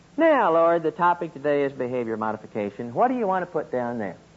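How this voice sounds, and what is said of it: Oklahoma accent. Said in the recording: “my Okie accent”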